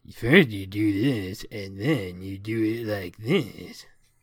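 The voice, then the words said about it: Cartoon character voice impression. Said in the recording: “my forum impression voice would be like Four Gregs from Homestar Runner ... That's really good.”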